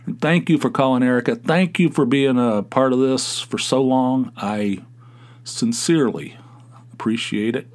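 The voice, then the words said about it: Southern Appalachian American accent. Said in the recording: “Is it Southern or is it Appalachian? It sounds Southern... I think it's Southern... It's not Southern. It's Appalachian... my accent”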